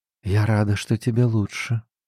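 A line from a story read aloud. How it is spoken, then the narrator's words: Whisper. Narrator (Russian): прошептала Нань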